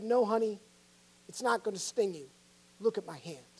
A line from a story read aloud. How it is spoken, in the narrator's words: the father gently said